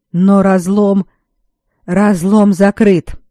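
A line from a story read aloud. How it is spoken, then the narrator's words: Furious bark. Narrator (Russian): рявкнул Грегор и неожиданно почувствовал, как тревога отступает, переплавляясь в ярость на слишком уж назойливого подчиненного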